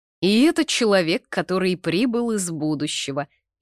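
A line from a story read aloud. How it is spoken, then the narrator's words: Snide. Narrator (Russian): ехидно произнес Артур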